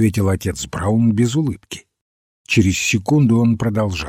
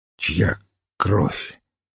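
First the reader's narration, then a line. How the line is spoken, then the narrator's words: Hoarse question. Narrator (Russian): Генри Сент хрипло спросил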